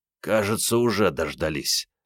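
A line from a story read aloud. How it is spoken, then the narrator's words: Hoarse. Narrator (Russian): прохрипел Андрей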